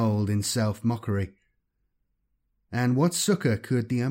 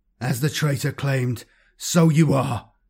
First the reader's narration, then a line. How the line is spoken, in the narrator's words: he shrieked